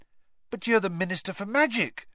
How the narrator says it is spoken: said Harry eagerly

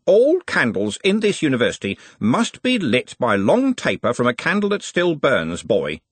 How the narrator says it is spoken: he said sternly

